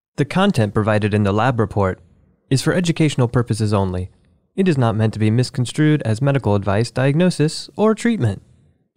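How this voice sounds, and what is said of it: Public radio announcer voice. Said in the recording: “my NPR voice”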